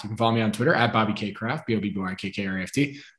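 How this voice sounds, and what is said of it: Rushed, very fast speech. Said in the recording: “I said that fast”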